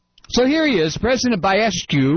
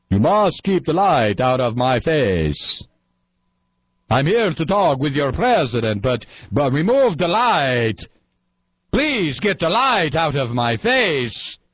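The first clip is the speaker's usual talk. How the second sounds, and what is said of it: Vampire-like Slavic accent. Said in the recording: “Romanian President Baiescu, the vampire ... another Slavic world leader ... those sexy accents”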